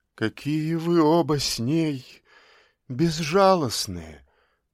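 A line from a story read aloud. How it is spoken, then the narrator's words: Slow, stressed, pained and bitter. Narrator (Russian): выговорила она медленно, с сильным ударением на последних слогах, и доброе пухлое лицо ее исказилось гримасой боли и ожесточения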